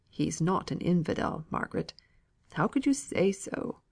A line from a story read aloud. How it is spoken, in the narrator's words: muttered he reproachfully